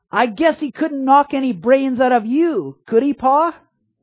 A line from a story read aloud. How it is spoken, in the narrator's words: Then he blurted out